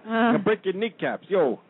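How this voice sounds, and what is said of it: Poor attempt at Brooklyn accent. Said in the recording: “that was my horrible, I can't do a Brooklyn accent anymore.”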